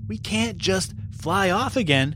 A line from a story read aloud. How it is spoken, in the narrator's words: said Elias